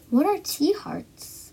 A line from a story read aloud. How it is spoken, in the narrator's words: asked her father